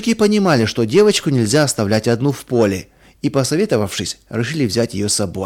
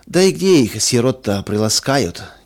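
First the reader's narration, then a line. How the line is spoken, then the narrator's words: Heavy sigh. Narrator (Russian): тяжело вздохнул третий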